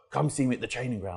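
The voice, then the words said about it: Deep strong voice imitating William Gallas. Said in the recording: “real deep voice ... William Gallas ... he's got a real deep, strong voice”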